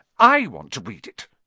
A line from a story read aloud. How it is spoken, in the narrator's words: said Harry furiously